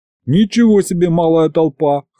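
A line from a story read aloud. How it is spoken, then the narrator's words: Wry snort. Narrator (Russian): хмыкнул я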